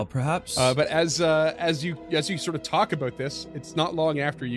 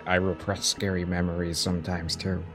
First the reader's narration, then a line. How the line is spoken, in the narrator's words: Physics just gonna whisper up to Shad